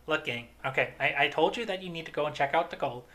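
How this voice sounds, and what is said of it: Imitates another person's voice. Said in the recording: “my Shapiro impression”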